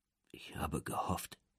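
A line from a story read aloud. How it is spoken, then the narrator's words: Quiet, old man, breaking off. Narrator (German): sagt der Alte leise auf Deutsch, unterbricht jedoch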